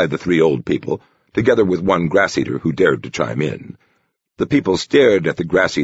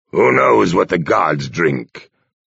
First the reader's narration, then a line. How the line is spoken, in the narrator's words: rumbled Mad Bear